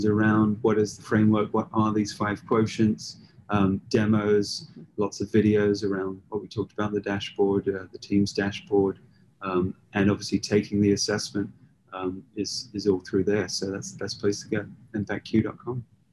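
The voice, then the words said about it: British accent. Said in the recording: “It's got that awesome British accent. ... It's your voice.”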